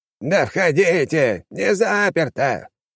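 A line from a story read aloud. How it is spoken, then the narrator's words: Shouting. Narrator (Russian): крикнул он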